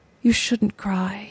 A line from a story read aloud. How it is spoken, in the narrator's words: he said softly